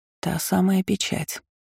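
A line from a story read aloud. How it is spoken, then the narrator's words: Aunt whispering. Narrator (Russian): шепнула подошедшая незаметно тетушка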